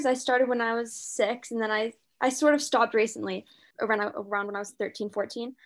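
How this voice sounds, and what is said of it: British London accent. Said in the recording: “I grew up here in the British education system. I mean, you could tell from my accent that, I mean, my mom's American, but I grew up in London.”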